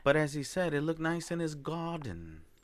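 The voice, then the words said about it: Put-on British accent. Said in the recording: “Is that your British accent? ... I nailed it. ... Wow, nailed it. ... You know who you sound like right now? ... Harry Potter? ... I was going to say David Tennant”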